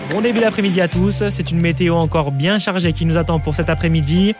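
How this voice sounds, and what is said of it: Southern French accent. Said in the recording (French): “le petit accent du sud”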